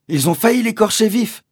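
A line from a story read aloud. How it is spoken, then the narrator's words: Woman exclaiming. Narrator (French): s'écriait-elle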